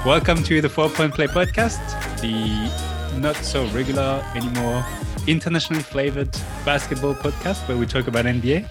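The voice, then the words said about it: French accent. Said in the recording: “with a French accent”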